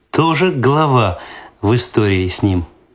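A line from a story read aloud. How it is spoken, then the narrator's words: Laughing. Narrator (Russian): засмеялась Светлана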